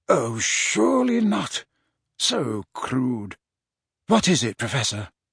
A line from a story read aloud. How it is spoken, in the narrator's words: Dumbledore said, quietly